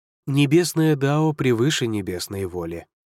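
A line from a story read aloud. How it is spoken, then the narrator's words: Calm reply. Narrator (Russian): спокойно отозвался Лидзе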